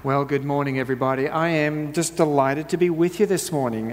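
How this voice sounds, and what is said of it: Speaks with a noticeable accent. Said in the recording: “I apologize for the accent. I've been working on it for years. It's just lingering”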